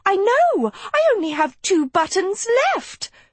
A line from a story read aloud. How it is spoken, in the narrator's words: Sophie squealed